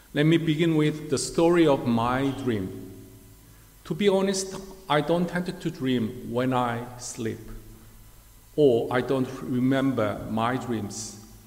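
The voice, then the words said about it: Korean-accented English. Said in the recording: “awful Korean accent”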